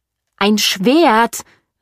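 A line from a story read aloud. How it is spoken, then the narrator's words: Shouted. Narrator (German): rief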